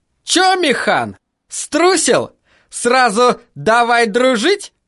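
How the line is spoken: Taunting shout. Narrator (Russian): самый задиристый кричал

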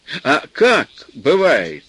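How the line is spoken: Loud smiling repetition. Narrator (Russian): громко повторил городской мужчина, заранее почему-то улыбаясь

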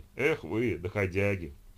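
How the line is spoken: Blissful sigh. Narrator (Russian): блаженно вздохнул

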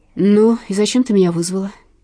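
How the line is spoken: Irritated. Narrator (Russian): Раздраженно проговорил длинноволосый

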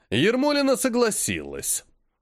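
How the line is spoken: Snide. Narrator (Russian): ехидно сказал Глазьев-старший

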